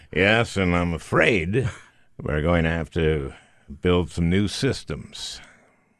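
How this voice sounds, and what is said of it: Deep, serious baritone voice. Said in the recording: “Did I do a good impression? ... The baritone voice, the seriousness”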